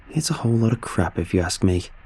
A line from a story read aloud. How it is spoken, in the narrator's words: he muttered